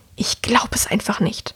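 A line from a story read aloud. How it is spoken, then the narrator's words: Hissing woman. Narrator (German): hört er die Frau zischen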